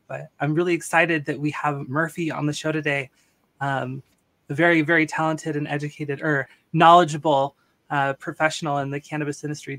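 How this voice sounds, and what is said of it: Slightly raspy sick voice. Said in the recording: “I'm a little sick today, so I'm a little raspy”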